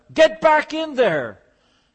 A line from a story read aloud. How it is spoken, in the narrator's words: I shouted at him